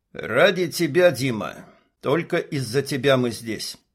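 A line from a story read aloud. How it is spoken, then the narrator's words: Calm reply. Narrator (Russian): Горец также спокойно ответил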